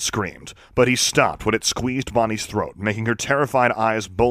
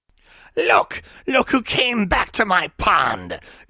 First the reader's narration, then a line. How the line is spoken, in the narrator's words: it cackled